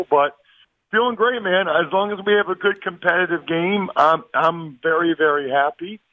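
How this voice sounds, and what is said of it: Strained, slightly hoarse voice. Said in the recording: “My voice is a little bit dicey after a week on Radio Row and Super Bowl”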